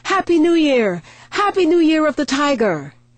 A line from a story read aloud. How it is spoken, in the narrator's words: they all raise their glasses shouting